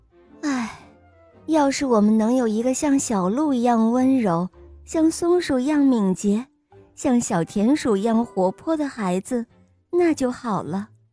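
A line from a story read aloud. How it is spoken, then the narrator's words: Sighing. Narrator (Chinese): 农夫和他的妻子叹气说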